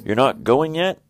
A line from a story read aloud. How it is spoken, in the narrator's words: he cried